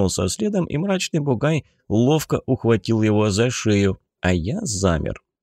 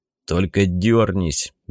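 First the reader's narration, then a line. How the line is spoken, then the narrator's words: Big man's gruff mutter. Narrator (Russian): буркнул бугай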